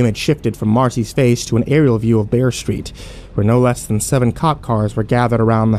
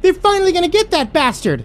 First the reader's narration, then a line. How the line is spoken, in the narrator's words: Rory blurted